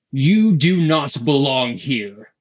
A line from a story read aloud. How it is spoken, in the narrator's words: he bellowed